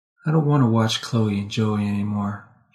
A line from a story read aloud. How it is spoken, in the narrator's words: she said softly